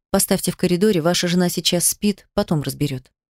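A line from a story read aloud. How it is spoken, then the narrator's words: Quiet speech. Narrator (Russian): Врач сказала негромко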